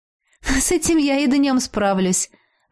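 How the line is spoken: Laughing reply. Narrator (Russian): рассмеялась в ответ

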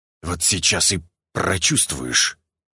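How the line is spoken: Hiss. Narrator (Russian): прошипел я

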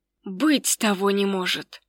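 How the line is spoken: Inquisitor whispering. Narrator (Russian): прошептал инквизитор

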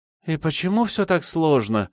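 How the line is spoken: Sighing girl. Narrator (Russian): вздохнула девушка

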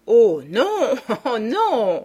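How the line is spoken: Laughing reply. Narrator (French): repartit Beautrelet en riant

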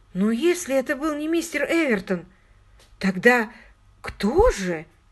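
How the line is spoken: Confused question. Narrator (Russian): растерянно спросила

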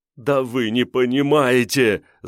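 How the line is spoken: Whining. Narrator (Russian): заскулил Диконов

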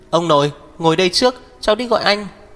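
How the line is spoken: Loud anxious question. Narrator (Vietnamese): Thiền Tuyết sợ Uyển Tình và Mục Thiên Dương đi ra ngoài nhìn thấy, lớn tiếng hỏi

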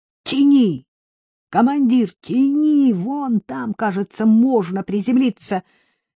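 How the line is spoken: Shout. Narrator (Russian): крикнул

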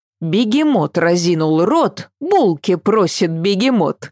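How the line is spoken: Laughing. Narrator (Russian): засмеялась Ася

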